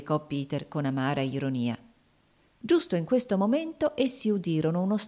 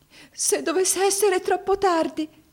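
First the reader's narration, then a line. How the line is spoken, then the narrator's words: Anguished exclamation. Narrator (Italian): esclamò con angoscia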